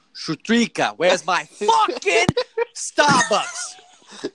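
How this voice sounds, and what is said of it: Put-on New Jersey accent. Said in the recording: “Say it with a New Jersey accent now”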